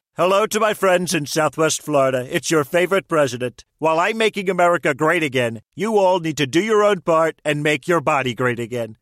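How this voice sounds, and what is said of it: Celebrity voice impersonation. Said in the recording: “Celebrity voice impersonation.”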